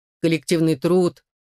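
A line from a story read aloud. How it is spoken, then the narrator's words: Grumbling. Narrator (Russian): проворчал Котекс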